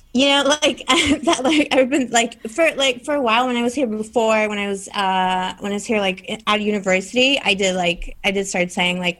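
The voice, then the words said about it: Strong accent. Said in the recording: “But your accent is very strong.”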